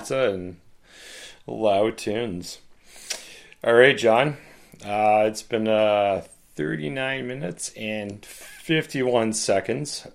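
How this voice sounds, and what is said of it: Strained, fading voice. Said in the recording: “my voice is going now”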